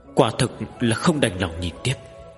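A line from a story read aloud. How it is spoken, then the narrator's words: Eager agreeing chorus. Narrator (Vietnamese): Sa Kiệt Long Vương Phật với những Phật tổ khác rối rít nói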